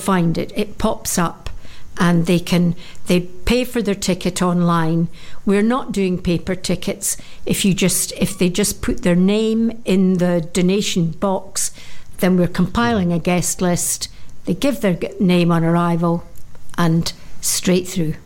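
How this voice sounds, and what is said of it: Dorset accent. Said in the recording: “it's a lovely Dorset accent you got there ... I've been working on it”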